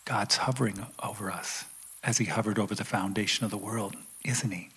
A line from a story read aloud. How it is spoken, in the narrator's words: He whispered